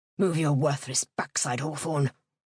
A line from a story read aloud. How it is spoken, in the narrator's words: the beaver snarled